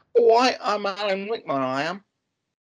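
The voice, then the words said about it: Imitates another person's voice. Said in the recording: “doing an Alan Rickman impression ... I didn't think I had an Alan Rickman in me, but I do.”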